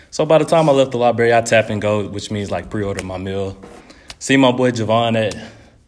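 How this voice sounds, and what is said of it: Breathless, panting speech. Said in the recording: “I'm out of breath, hold up ... slow down, man ... That little walk, you know, so I'm out of shape.”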